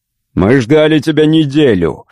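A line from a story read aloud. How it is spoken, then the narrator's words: Snorting. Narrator (Russian): фыркнул Ростов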